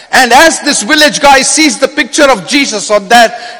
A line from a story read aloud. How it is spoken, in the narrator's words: he shouts out to the crowd and says